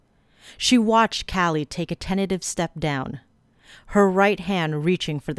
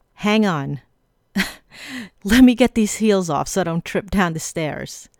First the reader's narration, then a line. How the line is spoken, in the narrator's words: said with a laugh